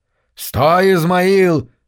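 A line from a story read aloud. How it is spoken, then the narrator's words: Barking pastor. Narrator (Russian): рявкнул пастор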